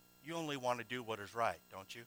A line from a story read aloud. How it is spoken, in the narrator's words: he said in a low tone